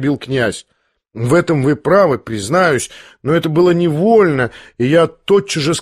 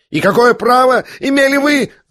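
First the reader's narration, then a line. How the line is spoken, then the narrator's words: Unnatural shriek. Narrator (Russian): завизжал самым неестественным голосом Ипполит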